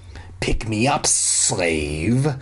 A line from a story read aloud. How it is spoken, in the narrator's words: the dummy hissed